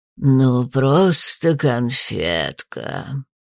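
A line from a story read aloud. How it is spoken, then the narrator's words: Creaky old ghost voice. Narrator (Russian): Проскрипел почтенный призрак портной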